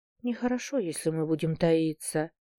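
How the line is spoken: Quiet and sad. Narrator (Russian): тихо и печально произнесла она

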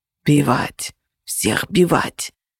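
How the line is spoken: Monster's rasp. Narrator (Russian): прохрипела тварь

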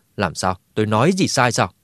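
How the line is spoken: Laughing. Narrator (Vietnamese): Triệu Nhị bật cười một tiếng

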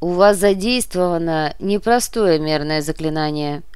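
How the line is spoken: Flat even statement. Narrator (Russian): ровным голосом констатировал Гуга

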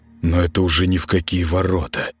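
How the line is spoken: Mumbled aloud. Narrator (Russian): промямлил вслух

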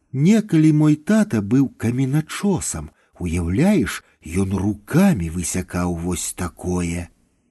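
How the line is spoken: Quiet. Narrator (Belarusian): Ханым ціха прамовіла

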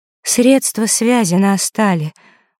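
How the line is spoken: Crushed, devastated voice. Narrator (Russian): убитым голосом сообщила Василиса, понимая, что только что потеряла последнюю связь с Лёшкой

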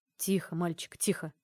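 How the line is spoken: Crushed, despondent tone. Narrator (Russian): Убитым тоном произнес Арес

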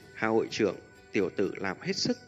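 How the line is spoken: Smiling. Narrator (Vietnamese): Hạ Vạn Kim mỉm cười nói

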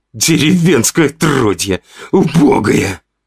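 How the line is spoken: Hoarse, shrill, cracking voice. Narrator (Russian): хрипел Ваня, и его обычно ровный голос срывался на визгливый, надтреснутый звук

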